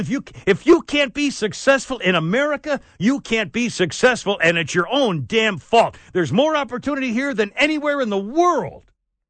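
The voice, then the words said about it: Screaming, loud angry delivery. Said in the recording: “God, this is just screaming me ... I'm sorry I'm screaming, man. I'll try to do better.”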